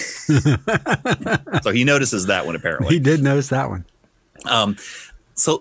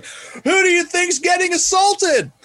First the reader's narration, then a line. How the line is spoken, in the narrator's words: yell